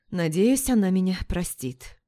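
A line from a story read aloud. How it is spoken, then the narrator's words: Exhaled. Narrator (Russian): выдохнул маркиз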